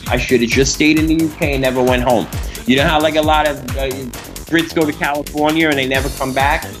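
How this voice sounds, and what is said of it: Strong Brooklyn accent. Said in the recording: “I'm from Brooklyn. The Brooklyn accent is so hard that I would never get rid of it... my Brooklyn accent”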